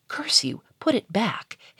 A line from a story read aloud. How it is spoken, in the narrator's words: hissed Charolais